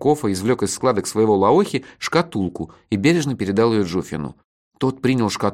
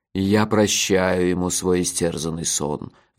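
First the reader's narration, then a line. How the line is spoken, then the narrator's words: Sighing. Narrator (Russian): вздохнул Джуфин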